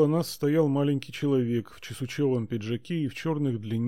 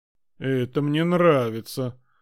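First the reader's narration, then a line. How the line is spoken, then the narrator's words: Spiteful, triumphant. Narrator (Russian): злобно торжествующе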